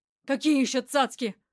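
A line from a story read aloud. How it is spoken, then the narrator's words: Snapped. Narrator (Russian): огрызнулся Мерзляков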